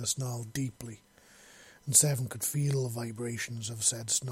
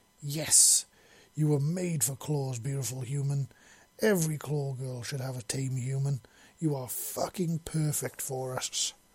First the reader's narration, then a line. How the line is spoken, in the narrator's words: growled loudly